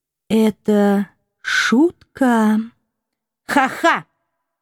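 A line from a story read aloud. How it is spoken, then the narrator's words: Wooden, flat voice. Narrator (Russian): Деревянным голосом поддержала Фрея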